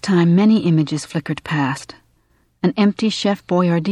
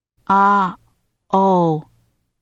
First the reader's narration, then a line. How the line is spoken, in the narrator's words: he said in his toneless voice